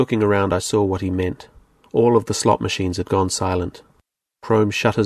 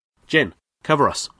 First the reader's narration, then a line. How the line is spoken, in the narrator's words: snapped